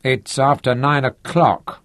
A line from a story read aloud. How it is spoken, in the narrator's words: he said gloomily